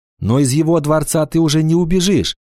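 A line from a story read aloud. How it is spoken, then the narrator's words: Exclamation. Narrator (Russian): воскликнула Анана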